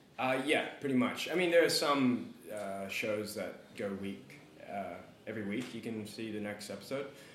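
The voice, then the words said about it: Australian accent. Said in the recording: “their funny accents ... they're all from Australia”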